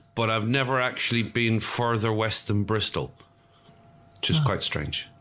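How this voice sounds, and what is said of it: Unusual English accent, West Country-like. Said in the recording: “they think I'm from the west country somewhere because of my weird accent.”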